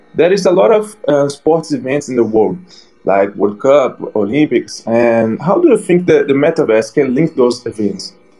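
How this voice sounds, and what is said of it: Brazilian-accented English. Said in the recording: “you have like an accent that looks like Brazilian”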